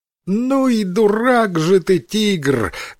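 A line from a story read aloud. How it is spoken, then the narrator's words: Loud laughing monkey. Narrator (Russian): громко рассмеялась обезьяна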